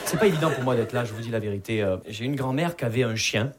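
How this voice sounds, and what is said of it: Southern French Perpignan accent. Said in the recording (French): “Vous entendez mon accent, je viens pas de Paris. Je viens de Perpignan.”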